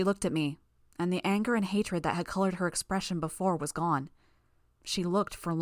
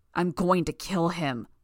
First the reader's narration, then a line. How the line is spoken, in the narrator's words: Bitch growled